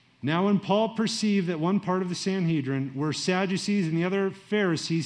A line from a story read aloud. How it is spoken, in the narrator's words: he cried out in the council